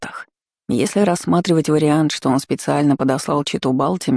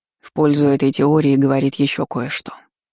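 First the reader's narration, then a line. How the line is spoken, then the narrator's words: Sigh. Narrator (Russian): вздохнул Артега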